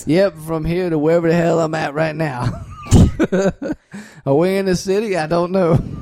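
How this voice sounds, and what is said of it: Slight Southern Louisiana accent. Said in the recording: “I can kind of tell by your slight accent there, sir.”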